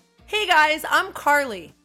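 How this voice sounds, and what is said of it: Yelling loudly. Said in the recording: “she's yelling... that hurt my ear”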